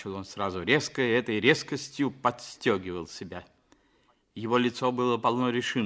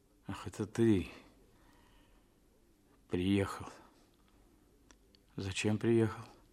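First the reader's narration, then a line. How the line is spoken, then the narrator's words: Groggy mumbling. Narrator (Russian): бормотал он, приходя в себя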